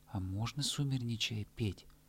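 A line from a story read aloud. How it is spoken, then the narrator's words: Plain. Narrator (Russian): спросил заяц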